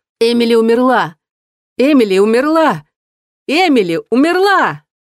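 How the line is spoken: Loud wail. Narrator (Russian): громко завопила

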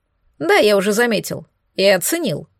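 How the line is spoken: Amused snort. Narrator (Russian): хмыкнул он

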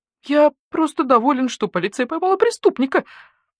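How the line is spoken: Whining. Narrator (Russian): заскулил Йот

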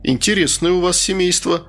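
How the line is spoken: Chuckling. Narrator (Russian): хохотнул Веня

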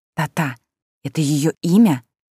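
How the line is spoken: Whispered question. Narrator (Russian): спросила шепотом, чтобы бабулька не услышала

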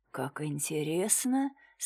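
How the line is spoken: Calm. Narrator (Russian): спокойно произнес комиссар

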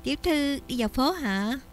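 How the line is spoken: Smiling, friendly. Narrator (Vietnamese): dì Ngô mỉm cười

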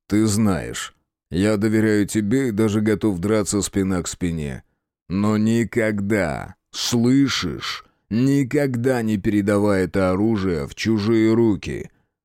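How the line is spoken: Grumble. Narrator (Russian): Я пробурчал

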